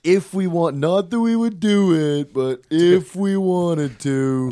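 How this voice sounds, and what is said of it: Imitates another person's voice. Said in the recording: “That's a good Carl Sagan impression. ... is that spot on?”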